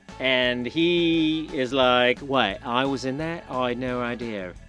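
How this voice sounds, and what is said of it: Imitates another person's voice. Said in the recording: “my James Corden impersonation ... funny voices like that”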